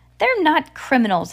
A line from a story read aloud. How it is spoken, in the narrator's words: Hal said firmly